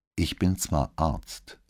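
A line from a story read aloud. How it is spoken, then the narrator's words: Plain. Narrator (German): sagte Modo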